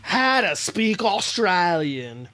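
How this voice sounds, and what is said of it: Put-on Australian accent. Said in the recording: “doing an Australian accent”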